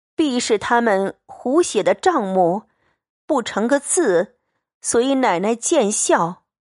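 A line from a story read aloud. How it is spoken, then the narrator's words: Amused. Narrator (Chinese): 凤姐又看着笑，她便说道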